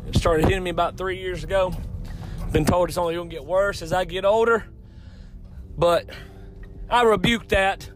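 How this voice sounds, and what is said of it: Hoarse, congested voice. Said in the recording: “losing my voice ... sinusy junk”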